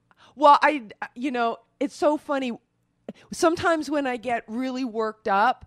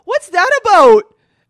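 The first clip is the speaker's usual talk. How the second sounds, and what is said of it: Canadian accent. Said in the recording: “my accent will come out ... Your Canadian accent came out”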